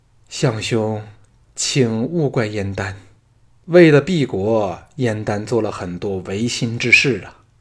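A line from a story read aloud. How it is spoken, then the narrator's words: Long sigh. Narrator (Chinese): 燕丹一声长叹，说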